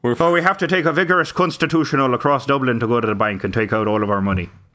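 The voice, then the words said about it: Attempted Irish accent. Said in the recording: “What would an Irish Irish banker sound like? ... I can't do an Irish accent.”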